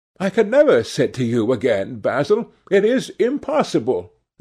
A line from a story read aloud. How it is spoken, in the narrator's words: he exclaimed, starting back